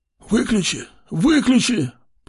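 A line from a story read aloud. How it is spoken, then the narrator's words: Old man's wheeze. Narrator (Russian): прохрипел старик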